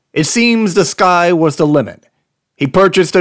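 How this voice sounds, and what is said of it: Usual voice. Nothing is said of it.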